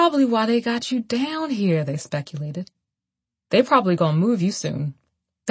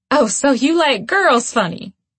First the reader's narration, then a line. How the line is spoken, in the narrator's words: They laughed